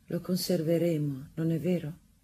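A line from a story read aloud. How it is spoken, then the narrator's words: Tender voice. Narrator (Italian): Improvvisamente, con una voce tenera, Rosanette disse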